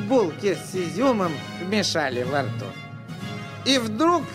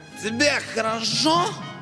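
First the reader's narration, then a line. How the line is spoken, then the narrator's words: Bark into ear. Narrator (Russian): гаркнул на ухо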